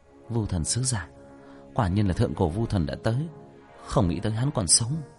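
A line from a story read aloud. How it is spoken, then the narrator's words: Muttering. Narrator (Vietnamese): Nam Vân Hy lẩm bẩm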